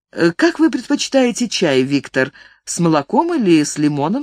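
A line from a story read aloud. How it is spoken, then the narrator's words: Casual matter-of-fact question. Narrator (Russian): спросила она будничным тоном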